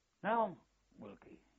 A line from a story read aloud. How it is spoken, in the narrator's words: says